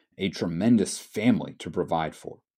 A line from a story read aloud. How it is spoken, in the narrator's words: Scrooge tellingly mutters